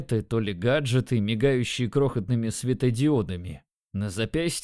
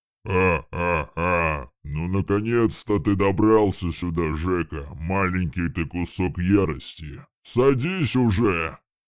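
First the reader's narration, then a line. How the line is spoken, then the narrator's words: Loud thunderous booming voice. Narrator (Russian): Громко сказал Геракл, его голос прогремел, как раскат грома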